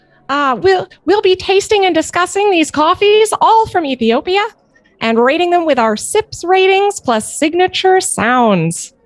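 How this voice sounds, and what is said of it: Dumbo elephant character voice. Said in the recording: “your favorite Dumbo voice, or frankly, you know, any elephant for that matter ... I'll do my best Dumbo voice”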